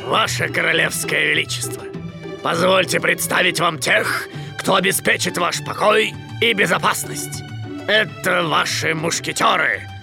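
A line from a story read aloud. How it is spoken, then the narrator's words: Deep, mock-respectful. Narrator (Russian): Пробасил с наигранным уважением капитан Пит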